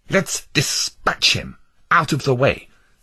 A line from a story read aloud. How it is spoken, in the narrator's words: snapped Mr